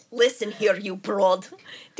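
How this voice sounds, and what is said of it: Put-on Russian accent. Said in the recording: “DMX is now Russian... This is turning into Russian immediately.”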